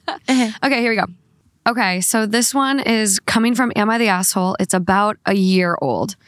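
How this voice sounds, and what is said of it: Hoarse, congested voice. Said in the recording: “I'm kind of losing my voice. Congested.”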